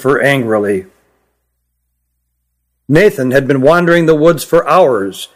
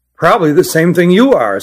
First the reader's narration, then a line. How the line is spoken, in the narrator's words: said Nathan